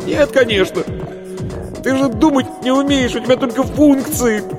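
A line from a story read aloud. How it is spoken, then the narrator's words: Loud laughter. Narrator (Russian): Варвара расхохоталась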